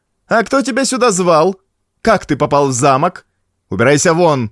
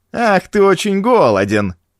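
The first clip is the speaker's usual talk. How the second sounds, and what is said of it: Mocking imitation of the boy. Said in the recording (Russian): “передразнила его”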